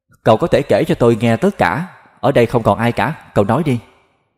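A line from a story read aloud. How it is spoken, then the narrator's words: Smiling. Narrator (Vietnamese): Cậu ta mỉm cười nhả khói nói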